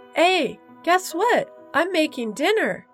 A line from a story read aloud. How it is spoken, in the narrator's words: automatically called out